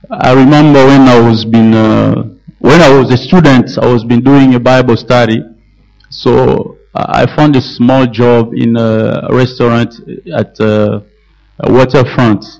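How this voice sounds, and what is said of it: French-accented English. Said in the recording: “my French accent as I'm speaking English”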